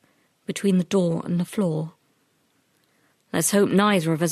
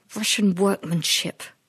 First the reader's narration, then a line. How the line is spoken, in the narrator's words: he said through gritted teeth